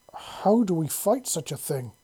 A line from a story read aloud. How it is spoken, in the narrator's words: Queen Ciri exclaimed, a picture of horror painted on her regal features